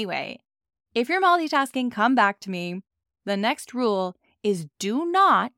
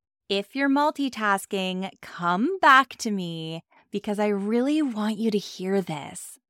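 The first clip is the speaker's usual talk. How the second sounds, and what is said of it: Impression of Amy Porterfield. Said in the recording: “I'm going to take a page out of Amy Porterfield's book ... that was an amazing impression”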